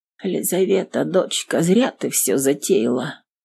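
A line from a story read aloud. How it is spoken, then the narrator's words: Quiet. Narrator (Russian): тихонько сказала мать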